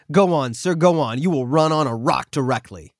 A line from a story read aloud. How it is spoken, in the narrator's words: Erickson snapped